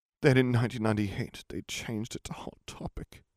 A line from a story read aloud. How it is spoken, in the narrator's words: he moaned